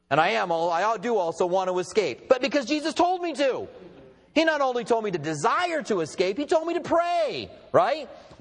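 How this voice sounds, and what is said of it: American accent. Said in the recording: “it is true I'm an American. My accent probably gave that away”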